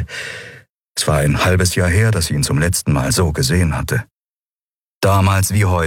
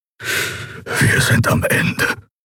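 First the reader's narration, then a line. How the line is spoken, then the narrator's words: Whisper. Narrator (German): flüsterte Keru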